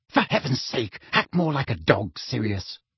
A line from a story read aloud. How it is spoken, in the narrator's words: Weasley hissing